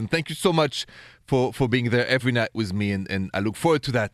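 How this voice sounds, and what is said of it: Thick French accent. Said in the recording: “my thick French accent”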